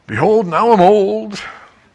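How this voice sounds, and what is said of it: Old man voice. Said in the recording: “talking like an old geezer”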